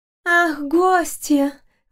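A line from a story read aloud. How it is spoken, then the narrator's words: Breathless young woman. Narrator (Russian): выдохнула девушка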